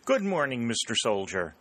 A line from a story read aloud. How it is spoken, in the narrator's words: she called cheerfully